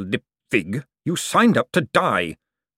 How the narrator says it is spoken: snapped Vetinari, his voice suddenly as cold and deadly as a falling icicle

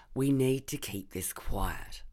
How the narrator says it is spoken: I said

